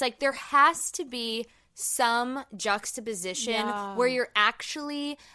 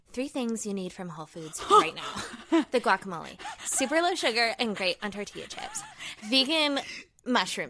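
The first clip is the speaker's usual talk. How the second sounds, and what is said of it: Exaggerated TikTok influencer voice. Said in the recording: “vocal fry ... The TikTok voice is what really kills me now ... The TikTok voice is like”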